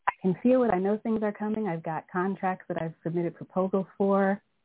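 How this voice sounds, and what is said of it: Shaky nervous voice. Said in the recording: “my voice is shaking because I'm so nervous.”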